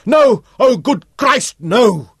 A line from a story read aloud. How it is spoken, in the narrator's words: he shouted